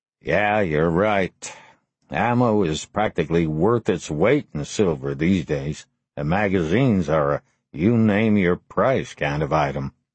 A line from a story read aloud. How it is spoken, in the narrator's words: Lars sighed and replied